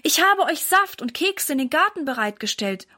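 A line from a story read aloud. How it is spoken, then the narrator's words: Calling out. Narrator (German): ruft Mama ihnen zu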